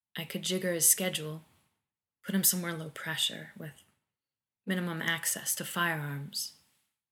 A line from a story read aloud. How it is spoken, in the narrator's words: said quietly